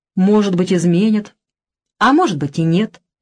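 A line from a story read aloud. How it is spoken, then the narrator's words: Calm. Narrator (Russian): спокойно ответил Оскар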